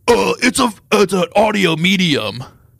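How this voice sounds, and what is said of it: Bad impression of a co-host. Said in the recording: “That's a really bad Jack impression.”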